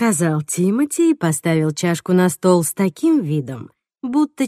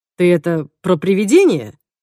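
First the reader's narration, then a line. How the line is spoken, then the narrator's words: Horrified exclamation. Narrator (Russian): с ужасом воскликнул он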